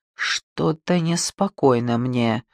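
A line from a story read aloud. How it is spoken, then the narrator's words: Quiet. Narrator (Russian): сказала негромко Антония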